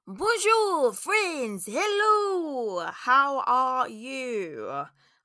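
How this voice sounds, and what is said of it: Bad put-on French accent. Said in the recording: “in a very bad French accent”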